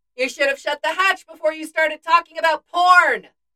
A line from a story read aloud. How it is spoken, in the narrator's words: Jane yells back